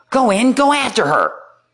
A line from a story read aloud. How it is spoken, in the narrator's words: Vicini screaming